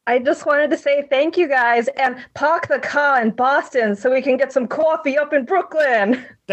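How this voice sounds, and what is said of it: Boston accent. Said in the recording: “Finally, a real Boston accent up in here”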